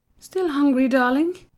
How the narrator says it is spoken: she cooed at her son

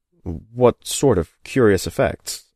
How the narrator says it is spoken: I asked

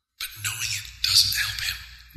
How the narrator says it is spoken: whispered the cloak through Tawis's skin

